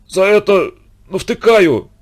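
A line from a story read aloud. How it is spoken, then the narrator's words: Exhausted wheeze. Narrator (Russian): из последних сил просипел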